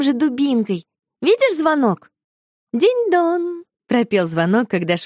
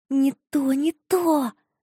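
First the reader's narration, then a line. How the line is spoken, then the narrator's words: Whispering in ear. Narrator (Russian): зашептала ей на ухо Марфуша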